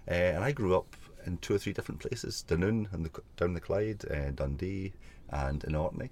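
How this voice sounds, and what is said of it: Scottish accent with Irish tinge. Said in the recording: “I'm obviously Scottish, although I kind of think I sound Irish now. I'm definitely Scottish, not Sean Connery Scottish.”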